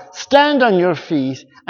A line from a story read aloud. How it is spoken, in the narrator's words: Paul called out